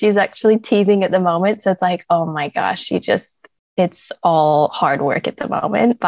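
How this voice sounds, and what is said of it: American accent. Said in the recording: “you can pick up the accent. I'm originally from America.”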